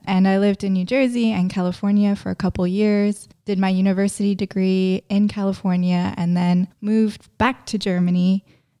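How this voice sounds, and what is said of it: American accent. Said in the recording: “which explains the American accent.”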